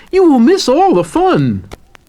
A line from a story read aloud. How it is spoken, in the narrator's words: cried Frog